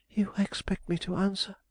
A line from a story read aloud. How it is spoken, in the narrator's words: she exclaimed